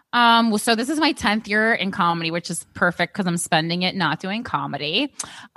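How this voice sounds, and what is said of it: Regular New Jersey accent. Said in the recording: “I have like a more regular New Jersey accent”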